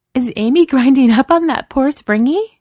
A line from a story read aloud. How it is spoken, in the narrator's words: Chloe laughs